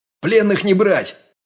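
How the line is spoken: Barked. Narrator (Russian): рявкнул я

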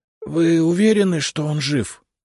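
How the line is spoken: Hoarse whispered question. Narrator (Russian): хриплым шепотом спросил портье

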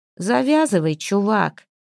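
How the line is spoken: Hoarse. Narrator (Russian): хрипло сказала

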